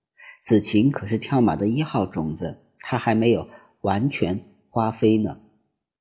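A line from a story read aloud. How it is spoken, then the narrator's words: Sweet soft voice. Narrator (Chinese): 一个甜甜的声音小声说道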